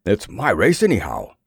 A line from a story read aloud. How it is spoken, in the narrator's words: gasped